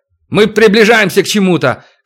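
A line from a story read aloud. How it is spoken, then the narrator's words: Shouted. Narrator (Russian): крикнул хозяин термоплана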